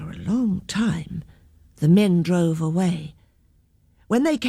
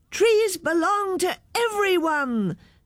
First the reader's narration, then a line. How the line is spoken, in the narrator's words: shouted all the children